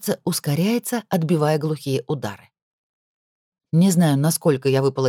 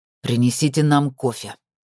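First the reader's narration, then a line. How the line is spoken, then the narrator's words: Angry, through teeth. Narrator (Russian): зло цедит Вересов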